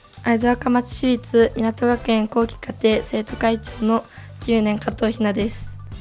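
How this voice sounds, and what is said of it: Hoarse, raspy voice. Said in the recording (Japanese): “声がガラガラになっちゃいました ... 朝起きたら声が出なくて”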